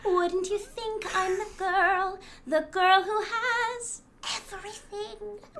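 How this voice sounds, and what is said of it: Raspy singing voice. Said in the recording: “that everything was really raspy”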